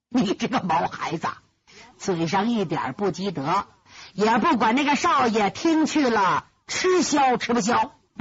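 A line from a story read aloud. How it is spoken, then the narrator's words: Chuckling old man. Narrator (Chinese): 那个老人嘻嘻一笑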